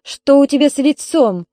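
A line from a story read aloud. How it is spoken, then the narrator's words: Stern question. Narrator (Russian): строго спросила Ольга Петровна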